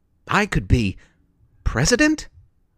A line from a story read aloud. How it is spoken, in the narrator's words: exclaimed